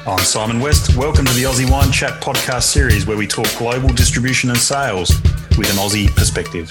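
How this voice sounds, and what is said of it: Australian accent. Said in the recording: “And an Aussie accent.”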